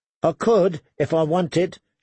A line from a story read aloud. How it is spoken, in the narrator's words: snapped at him